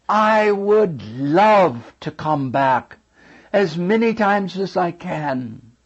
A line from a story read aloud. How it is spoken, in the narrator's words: I cried out and I said